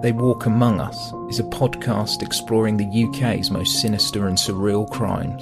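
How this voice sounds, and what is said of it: British accent. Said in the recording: “wonderful British accent”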